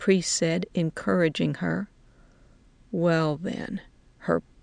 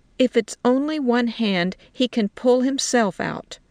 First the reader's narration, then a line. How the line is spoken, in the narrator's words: she said firmly